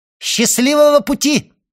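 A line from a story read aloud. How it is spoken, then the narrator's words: Called after departing man. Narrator (Russian): И он крикнул вслед удалявшемуся Эдмону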